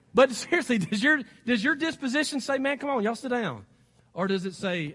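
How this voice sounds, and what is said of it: American country accent. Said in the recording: “I have a country accent already”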